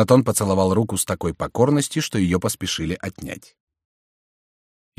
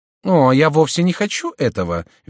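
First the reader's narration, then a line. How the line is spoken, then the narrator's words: Cheerful. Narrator (Russian): весело сказала герцогиня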